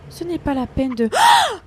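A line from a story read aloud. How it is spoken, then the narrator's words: Screaming. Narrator (French): hurla-t-elle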